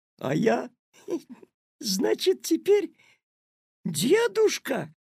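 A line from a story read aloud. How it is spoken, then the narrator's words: Loud laughter. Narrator (Russian): расхохотался Петя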